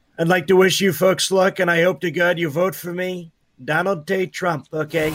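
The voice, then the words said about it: Donald Trump impression. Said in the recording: “our Donald J. Drump ... in your Trump voice”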